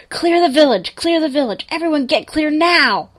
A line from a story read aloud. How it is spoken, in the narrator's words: he started yelling into the radio